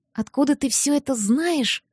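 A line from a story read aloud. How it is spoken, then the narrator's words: Whisper after recovering. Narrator (Russian): прошептала, наконец, придя в себя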